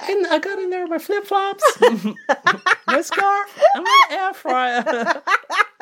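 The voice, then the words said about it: Impression of Marsha's voice. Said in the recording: “What's the voice? You can do the voice.”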